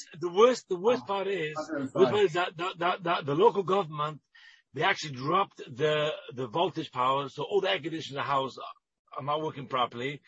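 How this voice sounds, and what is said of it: English accent. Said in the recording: “I can see you haven't lost the English accent.”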